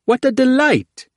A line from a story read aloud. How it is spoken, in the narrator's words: Crafty exclaimed from beyond Alamra